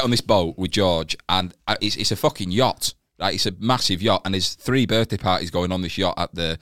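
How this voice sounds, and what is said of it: Usual voice. Nothing is said of it.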